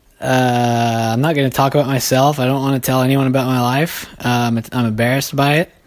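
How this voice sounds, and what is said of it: Out of breath, breathless speech. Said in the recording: “I'm still out of breath.”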